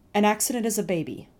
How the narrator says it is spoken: our mother said

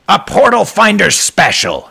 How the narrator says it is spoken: his landlord cried as if the portal had brought Malcolm nothing but joy

